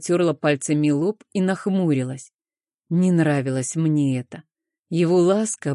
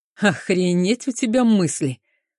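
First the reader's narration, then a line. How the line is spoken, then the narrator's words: Laughing. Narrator (Russian): хохотнул он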